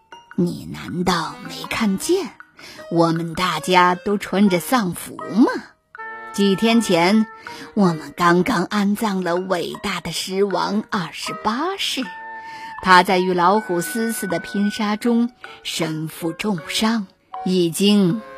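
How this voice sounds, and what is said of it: Gloomy low sinister voice. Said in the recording (Chinese): “阿蒂用阴森低沉的声音说”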